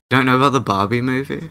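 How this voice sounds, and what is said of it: Weird Australian accent. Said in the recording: “you have a fucking weird Australian accent”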